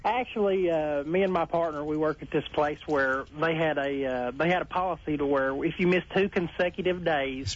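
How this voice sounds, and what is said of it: Slight Southern twang. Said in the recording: “I'm from southern Oklahoma. ... It's got a little twang, but it's endearing.”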